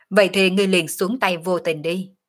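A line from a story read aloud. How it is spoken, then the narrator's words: Loud laughing. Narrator (Vietnamese): Sở Dương cười to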